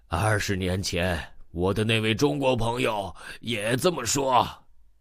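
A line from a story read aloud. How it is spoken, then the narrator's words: Older man's hearty laugh. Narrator (Chinese): 大叔哈哈笑了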